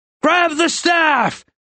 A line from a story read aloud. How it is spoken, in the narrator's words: Rin yelled